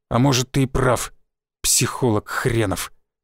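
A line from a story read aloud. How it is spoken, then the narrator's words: Forced out. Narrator (Russian): выдавил Шишаков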